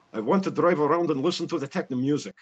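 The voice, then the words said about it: Fast Russian accent, lips barely moving. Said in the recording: “a Russian accent ... the faster that you can say that with moving your lips as little as possible, the better you are doing as a Russian accent. ... Well, he certainly nailed that.”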